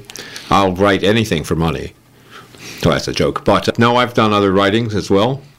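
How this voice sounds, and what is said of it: Californian American accent. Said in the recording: “that's a media accent from California, but I was born near Philadelphia ... Certain words it's going to leak out.”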